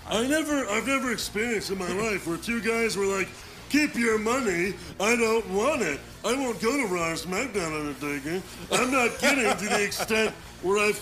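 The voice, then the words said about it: Imitates another person's voice. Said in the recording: “can you read this in your Shawn Michaels voice?”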